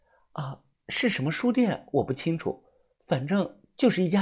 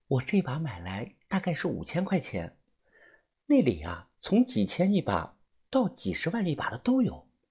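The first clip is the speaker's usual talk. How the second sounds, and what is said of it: Speaking quietly, hushed voice. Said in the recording (Chinese): “小声的回答”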